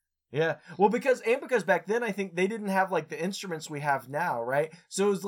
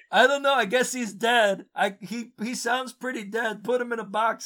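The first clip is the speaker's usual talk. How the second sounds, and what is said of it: Imitates another person's voice. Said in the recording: “Was that your Ray Romano impersonation? ... It was just a voice that came”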